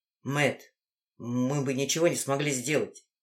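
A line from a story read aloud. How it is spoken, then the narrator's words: Quiet speech. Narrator (Russian): тихо заговорил Коул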